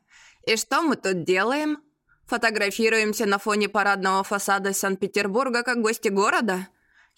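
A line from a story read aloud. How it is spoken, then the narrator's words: Wry snort. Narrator (Russian): Я хмыкнула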